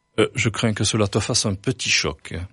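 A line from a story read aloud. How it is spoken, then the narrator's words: Plain. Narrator (French): dit-il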